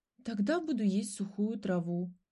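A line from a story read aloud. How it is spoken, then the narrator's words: Sighing. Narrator (Russian): вздохнула ласка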